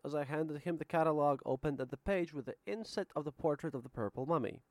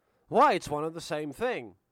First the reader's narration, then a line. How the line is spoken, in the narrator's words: Suddenly he exclaimed